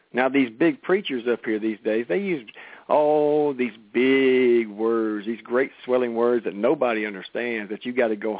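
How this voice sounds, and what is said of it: Louisiana accent. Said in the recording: “I'm from Princeton Road, Houghton, Louisiana, and I'm going to sound like a Louisiana boy.”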